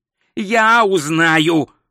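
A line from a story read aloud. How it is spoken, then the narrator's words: Snapping back. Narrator (Russian): огрызнулся Ринсвинд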